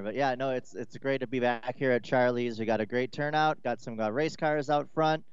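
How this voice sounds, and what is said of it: Slightly raspy voice. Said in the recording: “Voice is a little raspy”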